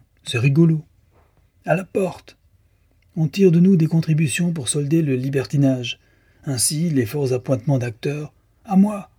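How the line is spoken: Exclaimed. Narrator (French): s'écria Delmar

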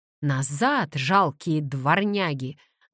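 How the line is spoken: Deep pirate-like shout. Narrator (Russian): закричала Кассандра басом старого пирата

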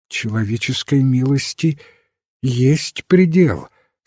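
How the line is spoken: Trembling voice, lady. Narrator (Russian): сказала дрожащим голосом леди Аутрем

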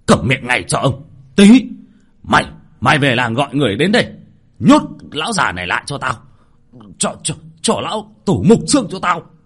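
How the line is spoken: Angry shout. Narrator (Vietnamese): cụ Lý giận dữ quát lên

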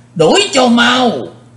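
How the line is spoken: Resounding shout, old man. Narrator (Vietnamese): tiếng quát vang lừng đó, quái lão

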